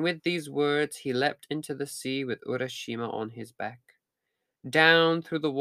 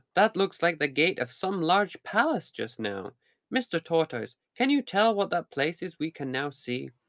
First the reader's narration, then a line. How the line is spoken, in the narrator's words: exclaimed Urashima